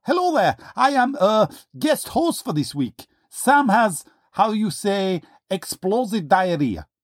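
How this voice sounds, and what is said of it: Put-on foreign accent. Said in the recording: “That accent.”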